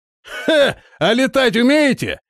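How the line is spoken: Laughing question. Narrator (Russian): смеясь спросил воин

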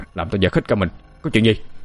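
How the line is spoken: Startled man shouting. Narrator (Vietnamese): Ông ta nuốt một ngụm nước bọt, bắt đầu quát lên

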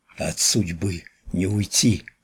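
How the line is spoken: Whisper in ear. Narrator (Russian): шепнул ей на ухо высокий

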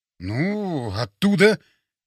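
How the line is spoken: Uncertain mumble. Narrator (Russian): неуверенно пробормотал

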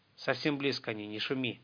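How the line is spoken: Barely audible old man's whisper. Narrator (Russian): Едва слышно прошептал старик сверху

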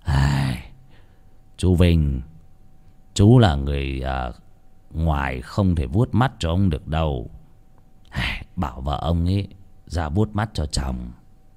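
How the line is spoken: Sighing. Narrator (Vietnamese): ông thầy cúng thở dài bảo

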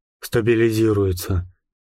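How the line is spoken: Muffled, flat voice. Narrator (Russian): глухо произнес он

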